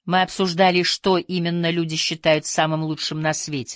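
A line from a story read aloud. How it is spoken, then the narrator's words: Plain. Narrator (Russian): сказала Карла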